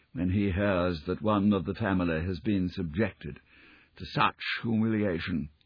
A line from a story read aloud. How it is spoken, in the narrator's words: he murmured